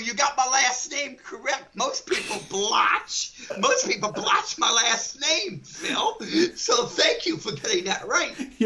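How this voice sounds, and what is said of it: New Orleans accent. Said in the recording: “I'm from New Orleans ... your accent”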